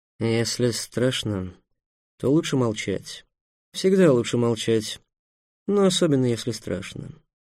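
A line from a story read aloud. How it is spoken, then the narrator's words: Grim. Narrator (Russian): мрачно уставился на Трикса своими мертвыми белесыми глазами и сказал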